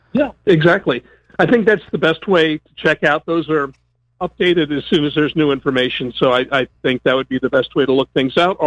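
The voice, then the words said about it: Strained voice, losing his voice. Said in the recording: “I'm losing my voice again.”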